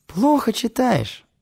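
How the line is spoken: Snort. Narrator (Russian): хмыкнул Керимов

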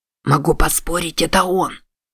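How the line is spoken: Whispered. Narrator (Russian): прошептал Геттис

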